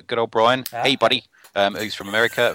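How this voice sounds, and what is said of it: Put-on American accent. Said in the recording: “That was my American accent.”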